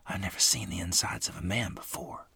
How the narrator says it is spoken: I whispered, trying to swallow down my rising stomach

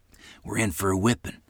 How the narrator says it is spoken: whispered to me

